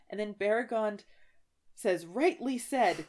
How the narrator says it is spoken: cried Beregond

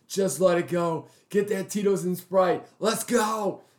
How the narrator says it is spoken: the devil was screaming

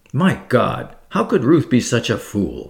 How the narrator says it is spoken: He exclaimed bitterly

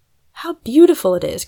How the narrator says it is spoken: cried Fanny

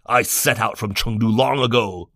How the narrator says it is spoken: Liu Bei said angrily

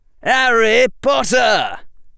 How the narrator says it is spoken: cried the voice of either Fred or George Weasley

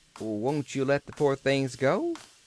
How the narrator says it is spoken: added

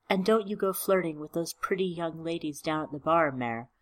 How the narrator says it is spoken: she said

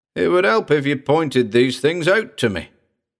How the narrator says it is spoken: Frank gasped

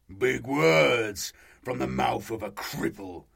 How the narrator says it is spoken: the Chaos Marine snarled

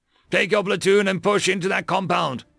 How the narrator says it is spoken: Michaels shouted

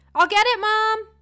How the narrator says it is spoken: yelled as I ran for the door

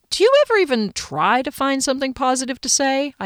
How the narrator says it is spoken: asked cheerfully

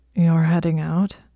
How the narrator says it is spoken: His voice was thick and scratchy

